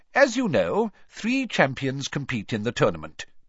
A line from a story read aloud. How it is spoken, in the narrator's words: Dumbledore went on calmly